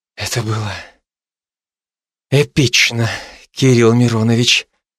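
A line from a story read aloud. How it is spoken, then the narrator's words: Trembling whisper. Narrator (Russian): прошептали ее дрожащие губы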